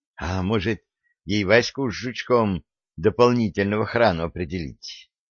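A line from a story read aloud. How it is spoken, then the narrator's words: Uncertain question. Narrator (Russian): неуверенно спросила Янка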